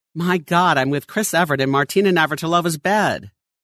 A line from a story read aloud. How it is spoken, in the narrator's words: the gentleman to exclaim the next morning